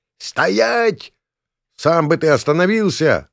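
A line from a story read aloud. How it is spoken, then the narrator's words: Yelling while fleeing. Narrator (Russian): завопил я, улепетывая от набирающего скорость осла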